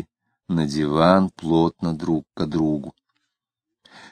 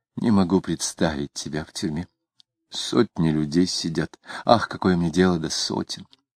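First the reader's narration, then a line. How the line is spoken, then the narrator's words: Muttering. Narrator (Russian): Варвара, прижавшись к нему, пробормотала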